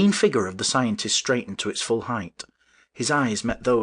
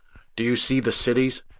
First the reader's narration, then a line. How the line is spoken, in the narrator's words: he said